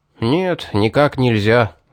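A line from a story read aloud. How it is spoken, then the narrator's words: Sighing. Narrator (Russian): вздохнул он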